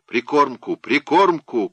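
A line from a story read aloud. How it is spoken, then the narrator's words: Shout. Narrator (Russian): крикнул Робер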